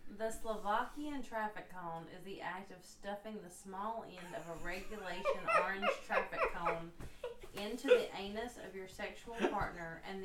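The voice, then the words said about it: Country accent. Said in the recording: “has her country accent, which I love country accents.”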